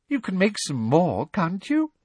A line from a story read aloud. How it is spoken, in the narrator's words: She said, her voice becoming more sweetly girlish, as it always did when she was furious